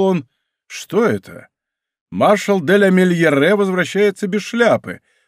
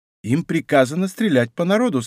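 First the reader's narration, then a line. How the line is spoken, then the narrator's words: Plain. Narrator (Russian): сказал Мазарини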